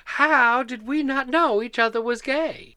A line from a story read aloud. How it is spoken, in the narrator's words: Todd giggled